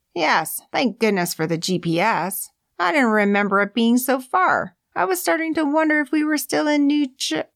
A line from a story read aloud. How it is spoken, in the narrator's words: Erica broke off with a mousy squeak